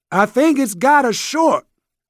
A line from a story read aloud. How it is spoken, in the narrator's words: he shouted over the roar